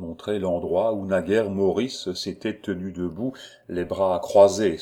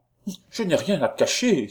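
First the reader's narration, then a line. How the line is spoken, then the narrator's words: Exclaimed. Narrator (French): s'écria mademoiselle de Villanove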